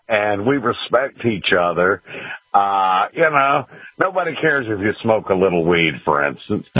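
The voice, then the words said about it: Georgia accent, great radio voice. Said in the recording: “I love your accent, man. ... You got a great voice, man.”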